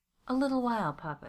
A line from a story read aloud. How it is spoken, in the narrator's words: she'd begged over and over